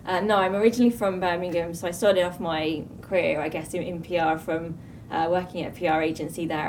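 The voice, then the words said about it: English accent. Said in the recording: “you're from England? ... Obviously, from your accent.”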